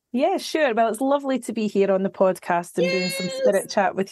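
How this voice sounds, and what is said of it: Scottish accent. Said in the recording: “is from Scotland ... her beautiful accent”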